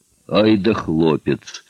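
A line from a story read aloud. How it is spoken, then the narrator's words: Deep bass voice, burly man. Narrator (Russian): пробасил усатый здоровяк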